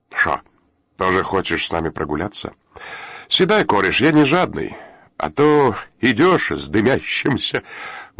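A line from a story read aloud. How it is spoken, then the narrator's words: Short laugh. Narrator (Russian): коротко хохотнул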